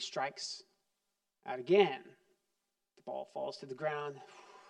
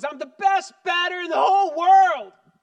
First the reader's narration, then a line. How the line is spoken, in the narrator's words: he shouts at the top of his lungs